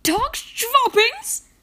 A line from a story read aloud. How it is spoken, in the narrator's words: I cried